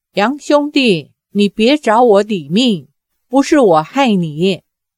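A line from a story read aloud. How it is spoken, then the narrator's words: Frightened cry. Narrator (Chinese): 傻姑脸上满是恐惧之色，叫道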